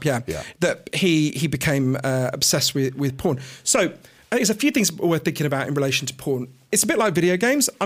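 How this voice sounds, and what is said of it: Posh British accent. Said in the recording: “my weird Downton Abbey accent”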